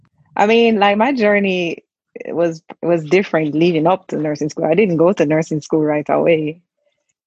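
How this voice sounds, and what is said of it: Noticeable non-American accent. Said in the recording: “I love your accent. I could listen to you talk all day. ... don't lose it. It's the best. Then you'll sound like the rest of us.”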